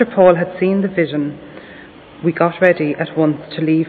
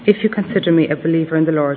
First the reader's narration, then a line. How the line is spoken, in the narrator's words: she said